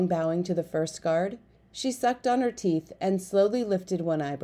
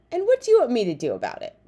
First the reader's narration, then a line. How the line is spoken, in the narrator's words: she snapped